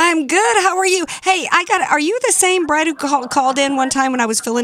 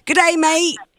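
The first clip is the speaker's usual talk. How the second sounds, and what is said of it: Put-on Australian accent. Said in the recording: “I got to pull up my Australian accent.”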